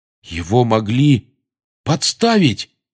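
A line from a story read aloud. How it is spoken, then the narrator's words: Exclaimed. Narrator (Russian): воскликнул Рон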